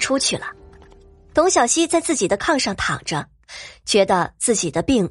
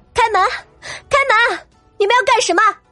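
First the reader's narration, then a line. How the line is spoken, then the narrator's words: Straining, loud yell. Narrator (Chinese): 董小希扯着嗓子朝外大喊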